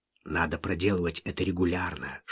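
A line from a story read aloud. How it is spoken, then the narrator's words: Whisper. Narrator (Russian): шепнул он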